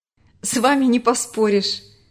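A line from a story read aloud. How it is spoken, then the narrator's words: Laughing. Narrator (Russian): рассмеялся Марк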